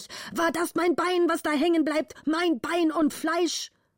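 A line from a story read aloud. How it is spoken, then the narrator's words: Angry father shouting. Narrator (German): schrie der Vater zornig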